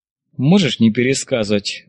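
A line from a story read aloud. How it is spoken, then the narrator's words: Snort. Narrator (Russian): батальон хмыкнул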